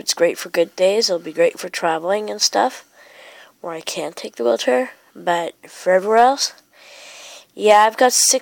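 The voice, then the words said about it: Sick, congested-sounding voice. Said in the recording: “As you can tell from my voice, I'm actually sick right now. I've got a cold.”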